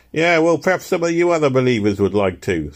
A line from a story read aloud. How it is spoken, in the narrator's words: said the young man sneeringly